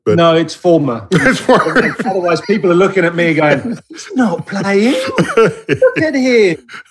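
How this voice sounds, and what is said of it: British accent. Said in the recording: “is a Brit, which his accent will reveal”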